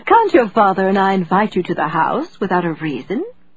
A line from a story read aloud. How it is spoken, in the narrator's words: her mother asked with a light, twinkling laugh, a laugh that was so forced